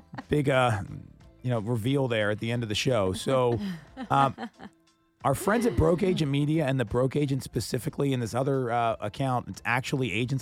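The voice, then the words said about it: Hoarse, strained voice. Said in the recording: “my voice is horrible from yelling at the game”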